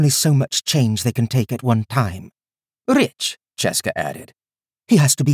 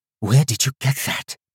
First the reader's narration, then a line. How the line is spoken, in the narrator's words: Teach whispered